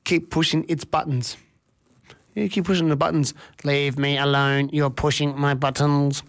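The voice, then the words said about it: Robot voice. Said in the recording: “as I take my robot voice somewhere else”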